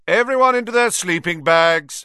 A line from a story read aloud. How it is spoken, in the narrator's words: shouted